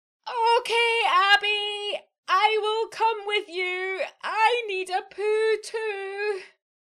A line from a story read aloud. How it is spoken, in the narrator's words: She took a deep breath, screamed out